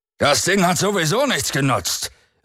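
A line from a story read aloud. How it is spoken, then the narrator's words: Called out. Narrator (German): rief Branska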